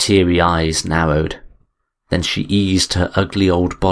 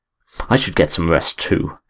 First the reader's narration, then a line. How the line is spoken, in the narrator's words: muttered